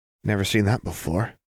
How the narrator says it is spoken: Jinx breathed

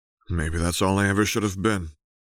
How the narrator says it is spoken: Jace murmured

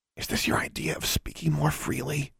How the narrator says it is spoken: She whispered

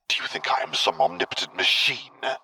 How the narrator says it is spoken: Vader hissed

